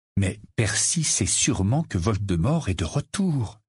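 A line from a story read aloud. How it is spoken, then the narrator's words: Slow. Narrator (French): dit lentement Harry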